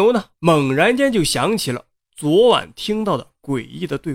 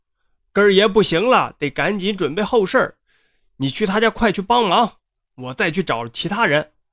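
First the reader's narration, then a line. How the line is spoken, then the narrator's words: Breathless. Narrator (Chinese): 王婶啊跑的那是气喘吁吁，便对他说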